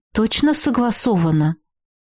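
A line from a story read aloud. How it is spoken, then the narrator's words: Gloomy questioning. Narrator (Russian): мрачно переспросила я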